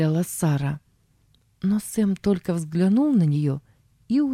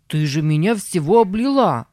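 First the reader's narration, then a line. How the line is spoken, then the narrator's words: Shout. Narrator (Russian): закричал он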